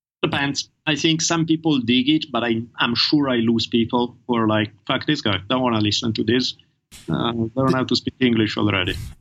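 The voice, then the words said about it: Distinct non-native English accent. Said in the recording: “your accent. You've commented on your accent many times, but I would argue your accent is an advantage ... extremely distinct voices”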